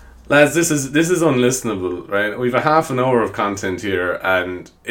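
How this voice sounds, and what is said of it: Usual voice. Nothing is said of it.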